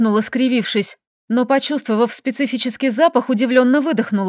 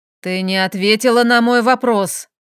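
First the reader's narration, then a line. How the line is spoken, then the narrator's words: Rude, tossed off. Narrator (Russian): Муж грубо бросив уже на ходу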